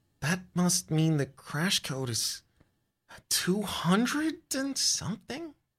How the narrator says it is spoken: You mutter

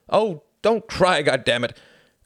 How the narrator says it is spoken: cried Jacqueline

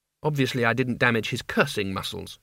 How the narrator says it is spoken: she said

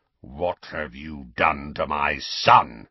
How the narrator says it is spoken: he said in a menacing growl

